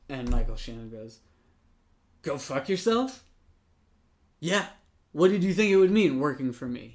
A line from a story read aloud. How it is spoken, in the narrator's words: He snaps